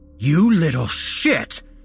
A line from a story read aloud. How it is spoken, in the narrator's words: he roared